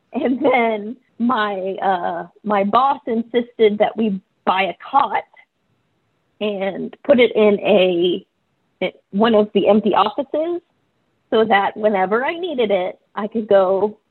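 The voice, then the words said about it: Emotional, voice close to tears. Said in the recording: “I'm getting emotional.”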